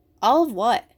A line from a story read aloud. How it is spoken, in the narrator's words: I asked